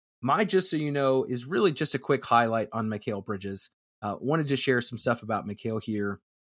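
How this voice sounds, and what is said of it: Strained, fading voice. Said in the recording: “<clears throat> sorry, as my voice is going here”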